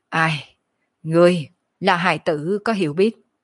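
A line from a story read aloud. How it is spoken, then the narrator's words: Calm sigh. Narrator (Vietnamese): Kiếp nạn thần hồn ung dung thở dài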